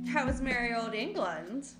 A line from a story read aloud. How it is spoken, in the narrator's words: Karina asked playfully